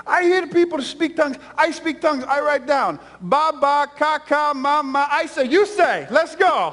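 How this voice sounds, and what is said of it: Thick accent, quoting grandmother. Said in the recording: “she's got a really thick accent.”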